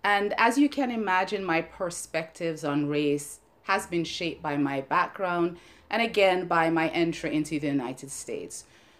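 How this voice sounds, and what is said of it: Jamaican accent. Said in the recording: “from my accent, I was born in Jamaica”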